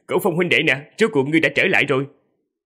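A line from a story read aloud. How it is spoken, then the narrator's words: Laughing loudly from afar. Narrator (Vietnamese): Hạ Nhất Minh từ rất xa đã cười lớn rồi nói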